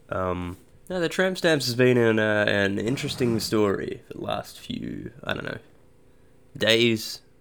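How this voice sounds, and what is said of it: Sick-sounding voice. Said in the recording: “I'm very sick, that's why my voice sounds like this. I didn't put my voice through a pitch shifter ... I'm just sick”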